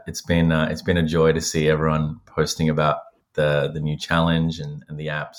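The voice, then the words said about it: Australian accent. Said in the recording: “based on your accent, you stayed”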